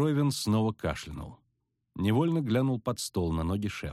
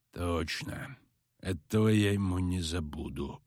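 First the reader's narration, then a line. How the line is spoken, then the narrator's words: Grumbling mutter. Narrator (Russian): буркнул тот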